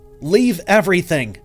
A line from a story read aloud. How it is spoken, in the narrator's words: I shouted, my voice laced with urgency